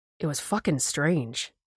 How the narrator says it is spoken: the SAR guy said, trying to keep his voice low so I wouldn't hear

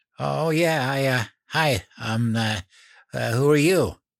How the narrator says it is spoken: I felt my face get hot, and I stammered

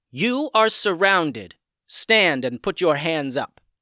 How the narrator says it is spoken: a voice called out firmly

